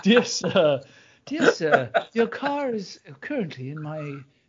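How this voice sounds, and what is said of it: Dainty English accent. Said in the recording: “someone like you whose parents raised them in England and it was a real dainty motherfucker”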